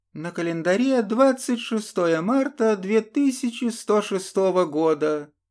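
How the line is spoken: Cheerful shout. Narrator (Russian): бодро выкрикнула ведущая

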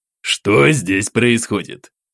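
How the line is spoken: Displeased bass interjection. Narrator (Russian): Недовольным басом вмешался в наш разговор старшина Никалин

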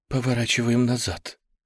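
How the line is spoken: Terrified breathless gasp. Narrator (Russian): выдохнула Дженни полным ужаса голосом

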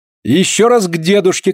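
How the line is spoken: Shouting. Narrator (Russian): кричала Полина

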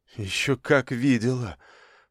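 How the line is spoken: Gloomy. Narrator (Russian): мрачно ответила Марина

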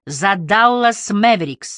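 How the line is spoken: Shout. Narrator (Russian): закричал кто-то

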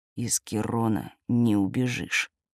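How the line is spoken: Growl. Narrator (Russian): рыкнул Берговец

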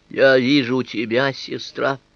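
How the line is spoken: Hoarse voice. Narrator (Russian): промолвил я и почувствовал, что голос мой почему-то звучит хрипло

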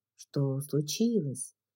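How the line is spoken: Hushed whispered question. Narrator (Russian): спросил, невольно понизив голос до шепота

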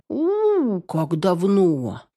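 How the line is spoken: Drawn-out child's voice. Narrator (Russian): протянул восьмилетний младшенький

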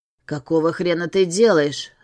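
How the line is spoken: Snarled. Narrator (Russian): зарычал

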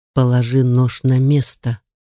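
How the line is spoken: Icy command. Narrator (Russian): ледяным тоном велел

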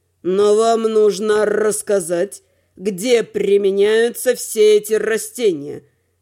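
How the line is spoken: Sadistic drawl. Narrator (Russian): С садистским удовольствием протянул Надим

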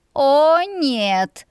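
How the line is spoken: Groaning. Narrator (Russian): простонала я

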